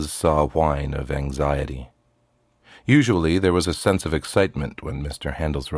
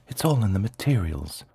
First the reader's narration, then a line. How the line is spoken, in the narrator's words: whispered Mama Alphonse Custer